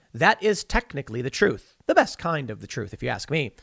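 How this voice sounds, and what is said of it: Sarcastic delivery. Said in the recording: “I'm saying that sarcastically, by the way.”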